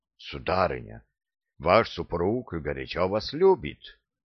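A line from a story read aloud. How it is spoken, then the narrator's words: Plain. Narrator (Russian): сказал я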